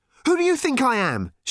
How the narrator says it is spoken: she demanded angrily

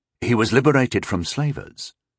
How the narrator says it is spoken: Rondol said calmly

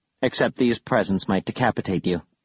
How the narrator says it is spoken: Bastille said flatly

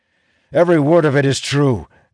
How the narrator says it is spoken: Elias shouts back

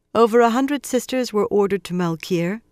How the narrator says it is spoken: she said more calmly than she felt

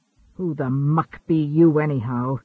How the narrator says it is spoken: he growled

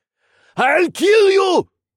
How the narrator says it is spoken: the man roared

